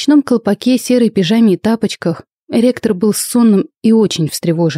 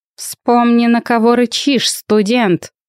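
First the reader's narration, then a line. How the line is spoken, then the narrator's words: Werewolf snapping. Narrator (Russian): огрызнулся оборотень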